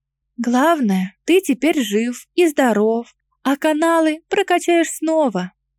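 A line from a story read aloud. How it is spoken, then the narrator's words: Whisper. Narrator (Russian): прошептала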